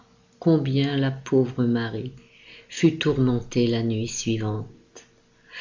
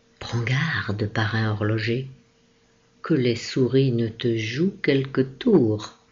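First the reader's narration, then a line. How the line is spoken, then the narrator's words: Exclaiming. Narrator (French): Fritz s'écria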